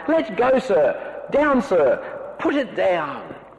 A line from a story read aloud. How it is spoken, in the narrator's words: he cried with angry frown